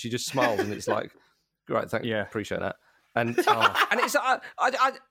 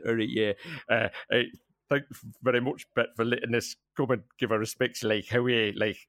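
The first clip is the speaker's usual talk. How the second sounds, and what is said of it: Mumbled stereotype Geordie accent. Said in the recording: “one of those Geordie fans walks up to her and just mumbles in this sort of stereotype accent”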